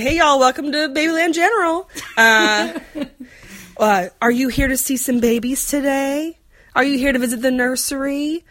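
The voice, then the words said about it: Put-on Southern American accent. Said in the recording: “I'm also going to do some Southern accents.”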